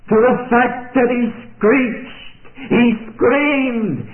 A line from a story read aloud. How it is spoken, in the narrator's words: he yelled